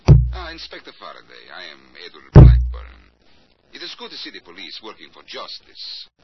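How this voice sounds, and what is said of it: Put-on Central European accent. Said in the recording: “he talks with an accent ... Central European, maybe. ... Like this? ... Well, that's pretty close.”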